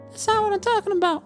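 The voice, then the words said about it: Imitates a little woman's voice. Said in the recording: “you sound like a little woman.”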